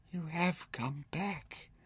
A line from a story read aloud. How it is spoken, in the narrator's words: whispered